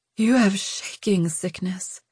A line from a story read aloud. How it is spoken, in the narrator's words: she breathed